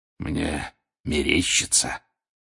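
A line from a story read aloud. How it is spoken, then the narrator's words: Hoarse wheeze. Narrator (Russian): вновь захрипел Грюм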